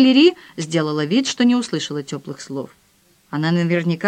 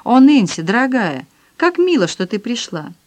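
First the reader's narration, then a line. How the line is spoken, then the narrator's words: Sudden exclamation. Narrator (Russian): она вдруг воскликнула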